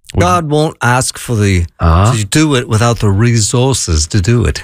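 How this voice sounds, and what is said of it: Imitates another person's voice. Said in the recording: “that was a really bad impression ... I thought it was actually pretty good ... That would make me sound like him.”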